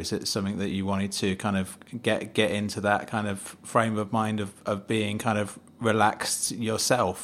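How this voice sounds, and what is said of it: Manchester accent. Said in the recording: “I love your Manchester accent. ... Kind of a Manchester accent”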